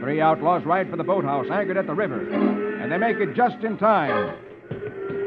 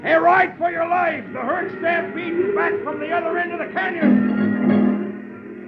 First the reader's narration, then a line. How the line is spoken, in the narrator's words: Rocky shouts